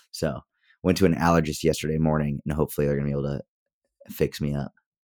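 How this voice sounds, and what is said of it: Rough, itchy-throated, congested-sounding voice. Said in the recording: “it sounds like I either just woke up or it sounds like I have a cold,... my throat is just itchy, like crazy itchy right now... that sultry morning voice”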